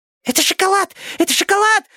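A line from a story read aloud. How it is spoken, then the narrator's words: Hamster's squeak. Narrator (Russian): запищал хомяк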